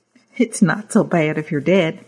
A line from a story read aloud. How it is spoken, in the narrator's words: Mary says, chuckling